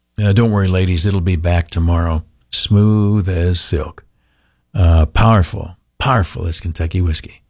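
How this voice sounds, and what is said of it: Rough, worn-out voice. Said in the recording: “Forgive my voice. Sounds like crap. ... a little bit more tonight ... my voice is shot”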